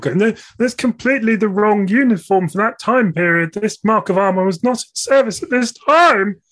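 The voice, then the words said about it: Imitates another person's voice. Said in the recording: “that wasn't actually Tom speaking then. That was me doing an impression of him.”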